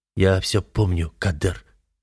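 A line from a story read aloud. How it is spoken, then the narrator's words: Quiet reply. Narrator (Russian): негромко отвечаю я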